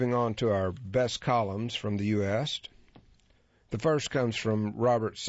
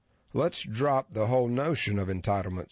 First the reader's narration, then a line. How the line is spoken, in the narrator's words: said Robert Samuelson